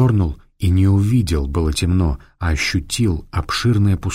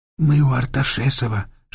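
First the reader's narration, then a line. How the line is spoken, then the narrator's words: Whispered. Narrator (Russian): шепнула Саадат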